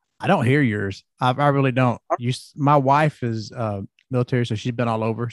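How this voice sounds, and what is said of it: Southern country accent. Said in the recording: “I know mine's country.”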